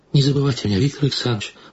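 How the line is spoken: Pleading. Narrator (Russian): продолжала она умоляющим голосом

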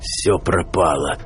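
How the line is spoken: Hoarse wheeze. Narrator (Russian): прохрипел он

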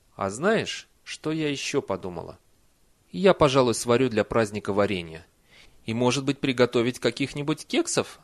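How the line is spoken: Plain. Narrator (Russian): спросила матушка

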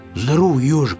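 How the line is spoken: Shouted. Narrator (Russian): крикнул

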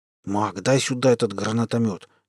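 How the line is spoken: Quiet hiss. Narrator (Russian): с тихим шипением сказал Щурый

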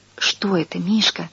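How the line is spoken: Whisper. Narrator (Russian): сказал я шепотом

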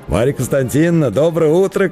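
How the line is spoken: Friendly smiling call. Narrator (Russian): крикнул ей Самойленко, приятно улыбаясь

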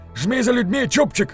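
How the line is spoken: Shouting. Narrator (Russian): крикнул он

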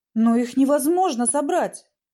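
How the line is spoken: Exclaiming. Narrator (Russian): воскликнул

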